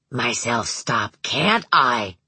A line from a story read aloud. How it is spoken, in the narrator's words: he said in a hoarse, strange voice